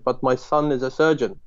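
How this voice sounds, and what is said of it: Imitated Iraqi broken English accent. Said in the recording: “in his, like, Iraqi broken English accent”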